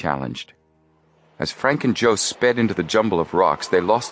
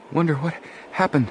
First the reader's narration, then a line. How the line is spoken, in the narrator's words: Joe panted